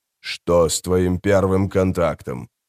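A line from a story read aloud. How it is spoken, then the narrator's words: Sigh. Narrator (Russian): Мебра вздохнул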